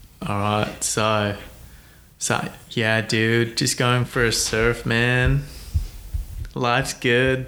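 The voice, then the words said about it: Poor put-on American surfer accent. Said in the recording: “those two pathetic ... impersonations ... I'm not the best at them”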